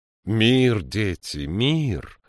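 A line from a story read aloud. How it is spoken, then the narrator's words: Exclaimed. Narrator (Russian): воскликнула она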